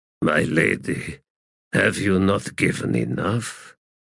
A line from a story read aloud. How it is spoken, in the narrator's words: said softly